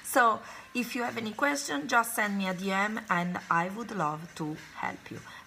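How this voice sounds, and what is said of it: Voice affected by a cold. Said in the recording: “Sorry for my voice, but I had a bit of a cold.”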